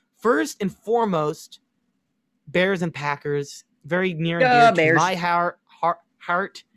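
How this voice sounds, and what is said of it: Chicago accent slipping out. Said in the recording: “I guess my Chicago accent came out there weirdly. ... My Chicago accent coming out. That was bad.”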